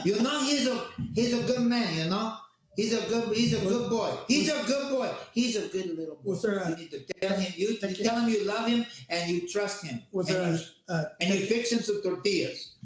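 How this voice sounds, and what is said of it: Imitated voice with thick accent. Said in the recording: “with a little thicker accent”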